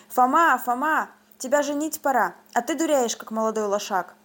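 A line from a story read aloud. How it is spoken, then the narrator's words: Shouted. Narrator (Russian): батько закричал на меня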